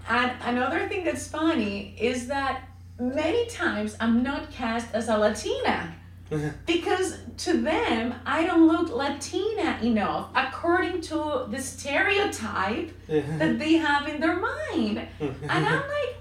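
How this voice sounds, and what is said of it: Noticeable accent. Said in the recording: “because I have an accent”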